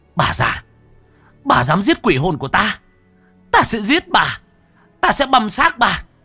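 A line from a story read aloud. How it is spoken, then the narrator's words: Screamed. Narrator (Vietnamese): Cô anh hét lên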